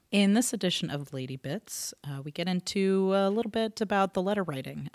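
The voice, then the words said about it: Congested voice from a cold. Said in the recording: “I have a cold today ... if I sound a little weird”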